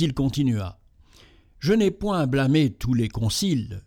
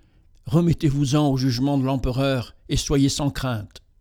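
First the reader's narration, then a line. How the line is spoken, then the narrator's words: More urgent tone. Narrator (French): il dit d'un ton plus pressant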